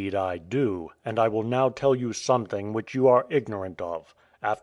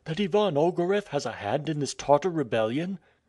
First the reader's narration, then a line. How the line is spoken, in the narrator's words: cried the chief of police